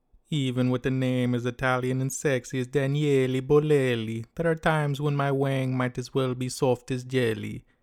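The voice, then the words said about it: Imitated strong Italian accent. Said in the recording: “he has a strong Italian accent, so I'm going to impersonate him and it as best I can”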